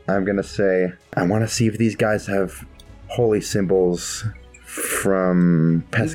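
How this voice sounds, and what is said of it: Whispering, quiet voice. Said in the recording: “I'm gonna whisper. I'm gonna talk quietly”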